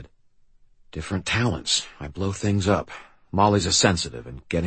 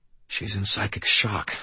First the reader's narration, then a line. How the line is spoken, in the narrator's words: I said quietly